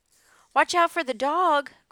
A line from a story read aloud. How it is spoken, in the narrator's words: cried the sheep